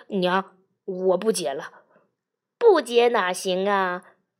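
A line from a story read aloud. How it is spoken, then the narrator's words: Pained, resolute. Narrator (Chinese): 百万福不忍老娘凄楚，咬了咬牙说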